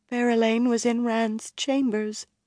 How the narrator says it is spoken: Elaine said in a small voice before she could stop herself

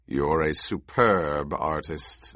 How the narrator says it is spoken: the Baron growled

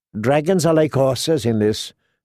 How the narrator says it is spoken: Iri said

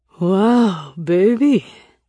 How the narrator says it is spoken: he slurred

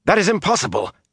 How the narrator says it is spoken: gasped

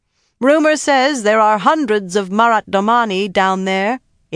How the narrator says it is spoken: Elia said loudly against her back

